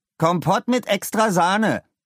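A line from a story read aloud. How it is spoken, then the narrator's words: Loud demand. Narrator (German): verlangte er laut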